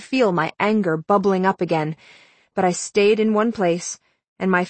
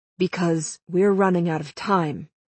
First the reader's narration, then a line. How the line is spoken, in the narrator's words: she said simply